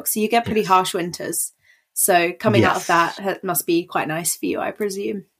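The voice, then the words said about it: British accent. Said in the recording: “I live in the UK, for listeners who aren't aware from the accent.”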